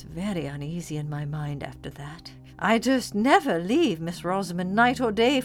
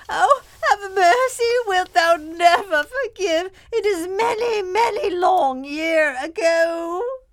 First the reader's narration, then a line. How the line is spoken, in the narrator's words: Miss Furnival kept shrieking out